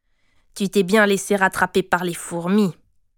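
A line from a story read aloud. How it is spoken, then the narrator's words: Grumbled. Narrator (French): grommela Shinda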